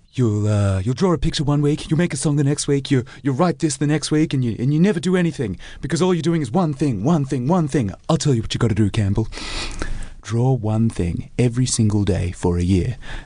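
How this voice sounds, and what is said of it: Imitates another person's voice. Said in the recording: “It's a great impression if you ever meet him.”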